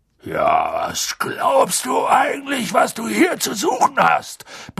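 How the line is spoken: Sudden roar. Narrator (German): brüllte er so plötzlich los

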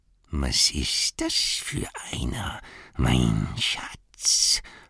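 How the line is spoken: Whispered to himself. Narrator (German): flüsterte Gollum, der immer mit sich selbst sprach, weil er es nicht gewohnt war, mit jemand anderem zu sprechen

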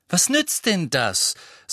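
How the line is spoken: Loud. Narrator (German): sagte Harry laut

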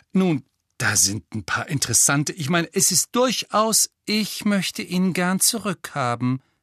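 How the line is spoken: Embarrassed stammering. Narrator (German): stammelte Hermine peinlich berührt

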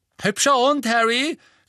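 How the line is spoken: Boy's call. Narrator (German): rief ein großer Junge mit Rasterlocken

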